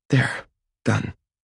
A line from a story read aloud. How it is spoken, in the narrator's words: she breathes, her voice husky with repressed emotion